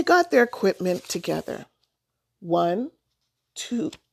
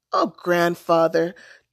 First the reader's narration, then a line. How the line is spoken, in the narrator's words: Thomas said, laughing